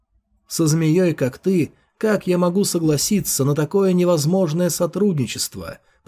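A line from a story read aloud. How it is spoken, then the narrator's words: Whispering. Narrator (Russian): прошептал Фэй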